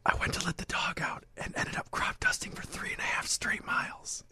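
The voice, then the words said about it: Whispered speech. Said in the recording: “my accent is whisper ... a whisper accent ... So we're going with whisper”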